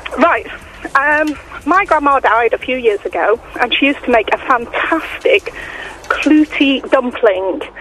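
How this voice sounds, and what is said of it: Out of breath, panting. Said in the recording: “hyperventilating on me ... I'm out of breath after running out of the dentist”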